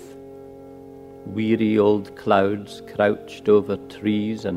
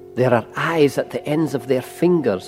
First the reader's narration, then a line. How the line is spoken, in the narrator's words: I whispered